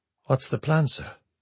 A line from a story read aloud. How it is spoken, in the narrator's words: he asked quietly